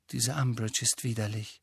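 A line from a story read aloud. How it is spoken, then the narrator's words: Quiet voice. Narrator (German): sagte sie mit leiser Stimme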